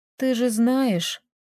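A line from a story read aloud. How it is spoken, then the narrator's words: Sad reply. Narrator (Russian): грустно ответила Таисия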